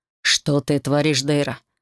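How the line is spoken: Growled, lord. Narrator (Russian): рыкнул владыка

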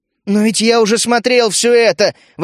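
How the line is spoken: Exasperated exclamation. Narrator (Russian): воскликнул я, теряя остатки самообладания

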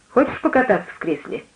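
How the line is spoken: Plain. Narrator (Russian): спросил он меня

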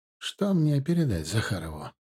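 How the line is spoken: Softer soothing question. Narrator (Russian): спросил он более мягким тоном, видя, что собеседник находится в очень взвинченном состоянии

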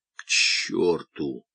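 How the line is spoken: Hoarse. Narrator (Russian): хрипло сказал Румата

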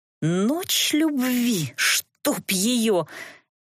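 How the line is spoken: Angry hiss, suppressed laughter. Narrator (Russian): сердито шипела я, пытаясь одновременно удерживаться от мата и смеха

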